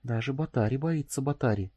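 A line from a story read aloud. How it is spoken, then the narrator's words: Surprised whisper. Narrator (Russian): удивленно прошептала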